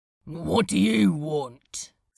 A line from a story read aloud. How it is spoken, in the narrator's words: the tall comedian asked, gruffly